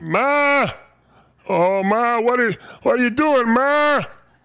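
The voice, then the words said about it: Imitates another person's voice. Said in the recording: “do the Ray Romano voice”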